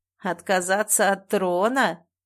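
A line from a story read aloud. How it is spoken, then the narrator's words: Hoarse laugh. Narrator (Russian): хрипло рассмеялся мышь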